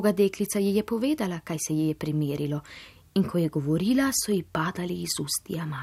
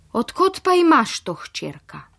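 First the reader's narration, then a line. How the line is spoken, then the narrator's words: Astonished exclamation, mother. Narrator (Slovenian): Mati je vsa začudeno vzkliknila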